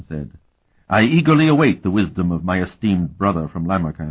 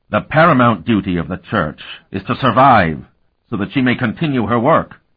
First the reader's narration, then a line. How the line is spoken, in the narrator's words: Orzel said in his harsh voice